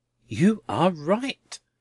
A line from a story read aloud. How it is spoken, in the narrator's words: cried Mr